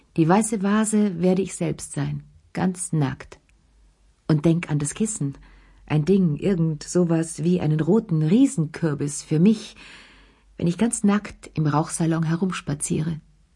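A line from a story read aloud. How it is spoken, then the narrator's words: Brusque interruption. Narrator (German): unterbrach ziemlich schroff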